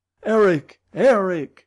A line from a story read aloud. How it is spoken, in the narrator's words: I cried